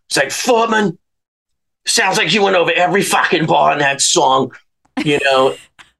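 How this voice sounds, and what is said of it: New York accent impression. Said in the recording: “in his New York voice.”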